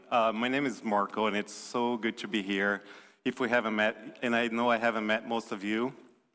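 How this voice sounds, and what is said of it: Slight Brazilian accent. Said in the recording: “you might notice the southern accent a little bit... Deep south, like keep going south, South America. I'm from Brazil originally”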